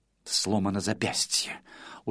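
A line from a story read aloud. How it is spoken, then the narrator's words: Muttering. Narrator (Russian): ее бормотание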